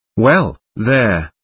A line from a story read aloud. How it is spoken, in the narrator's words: Tobias decided calmly